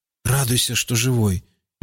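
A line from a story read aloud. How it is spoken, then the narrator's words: Grumbled. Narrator (Russian): буркнул Рауф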